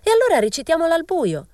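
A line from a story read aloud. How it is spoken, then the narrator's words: Girl shrieking. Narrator (Italian): strillò una ragazza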